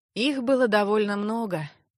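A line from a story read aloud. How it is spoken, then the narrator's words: Heavy sigh. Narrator (Russian): тяжко вздохнул маг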